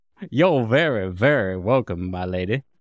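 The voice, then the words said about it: Put-on Southern Georgia accent. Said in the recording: “very Georgian Southern librarian ... I got a little Savannah in there.”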